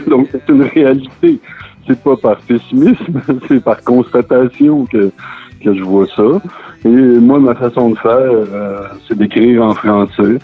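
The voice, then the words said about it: Quebec French accent. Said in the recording (French): “avec mon accent, euh, il y, a ces couleurs que je mets là-dedans... je viens d'une famille ordinaire québécoise... on a un accent de, particulier”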